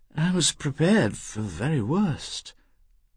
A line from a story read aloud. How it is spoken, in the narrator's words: she said in her expiring tones